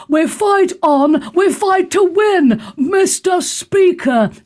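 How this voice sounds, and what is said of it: Margaret Thatcher impression. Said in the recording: “I do quite a good Margaret Thatcher.”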